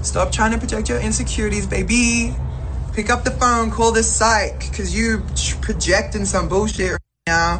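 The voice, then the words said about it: Australian accent. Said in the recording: “The accent ... What is that accent? ... She's Australian.”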